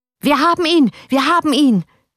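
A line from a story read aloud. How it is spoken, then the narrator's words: Shouting. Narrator (German): schrie er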